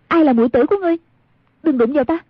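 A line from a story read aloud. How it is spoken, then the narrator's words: Shouting. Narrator (Vietnamese): Một niệm từ quát lên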